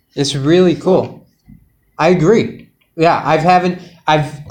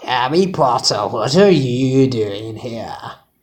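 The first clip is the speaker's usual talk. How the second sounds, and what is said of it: Poor attempt at British accent. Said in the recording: “I don't even know what that accent was. ... I think you're trying to be British. ... It was displeasing to the ear.”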